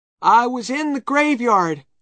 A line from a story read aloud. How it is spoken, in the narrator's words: said Tom loudly